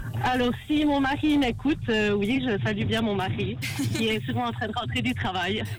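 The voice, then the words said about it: Slight Bernese Jura French accent. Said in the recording (French): “on sent que t'as un petit accent ... Du Jura bernois.”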